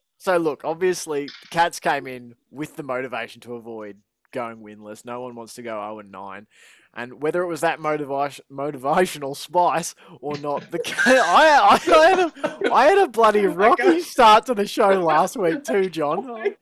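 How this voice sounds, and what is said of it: Put-on Australian accent. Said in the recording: “how shit your Australian accent is ... Why can't they hire real Australians?”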